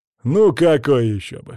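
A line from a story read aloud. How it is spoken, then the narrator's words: Snort. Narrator (Russian): хмыкнул Кок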